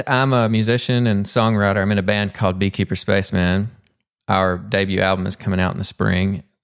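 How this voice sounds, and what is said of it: Southern US accent. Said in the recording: “if you're picking up on the Southern accent, I'm originally from Pumpkin Bend, Arkansas... still got that Pumpkin Bend accent.”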